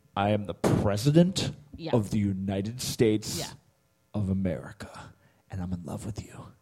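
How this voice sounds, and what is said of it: Overly dramatic TV drama voice. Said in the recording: “Here's my impression of that show ... like it's very dramatic”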